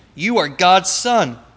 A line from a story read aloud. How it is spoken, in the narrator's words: the evil spirits fell down at his feet and shouted